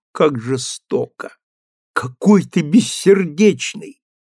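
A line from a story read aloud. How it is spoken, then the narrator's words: Convulsive sobbing. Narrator (Russian): Она судорожно зарыдала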